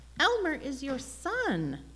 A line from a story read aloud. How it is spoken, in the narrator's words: Mama pleaded